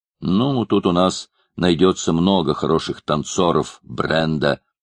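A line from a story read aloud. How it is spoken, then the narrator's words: Plain. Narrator (Russian): ответил Мордонт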